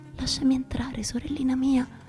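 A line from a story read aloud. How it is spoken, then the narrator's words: Exclamation. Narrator (Italian): l'udì esclamare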